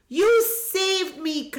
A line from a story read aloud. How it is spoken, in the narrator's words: cried Golu